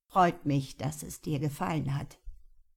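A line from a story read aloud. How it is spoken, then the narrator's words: Plain. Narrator (German): sagte der Blumenhändler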